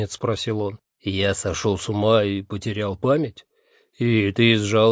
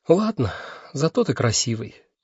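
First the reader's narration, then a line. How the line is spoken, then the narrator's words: Sigh. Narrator (Russian): вздохнула Миламоре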